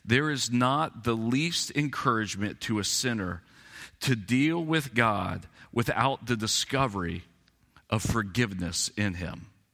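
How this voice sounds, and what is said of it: Slow, deliberate reading. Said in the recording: “I'm going to slow down, read it slowly.”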